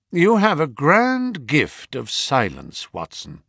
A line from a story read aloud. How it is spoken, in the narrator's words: said he